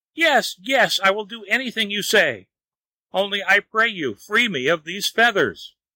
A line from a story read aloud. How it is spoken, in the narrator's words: Wang, feeling his pain growing worse and worse every minute, cried out at last